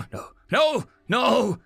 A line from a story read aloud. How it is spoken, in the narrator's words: he cried out